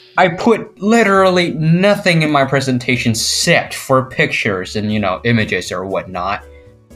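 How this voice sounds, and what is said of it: Peculiar non-American accent. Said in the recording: “I won't say it's confusing, it's just a bit peculiar to some. ... who ... Only listens to ... very American ... Accents”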